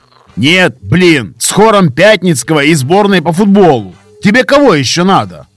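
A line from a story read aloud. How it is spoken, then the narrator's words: Shouting from below. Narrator (Russian): прокричал снизу отшельник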